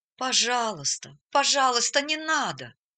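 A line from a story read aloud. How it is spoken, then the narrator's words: Pleading. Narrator (Russian): взмолился Эрвин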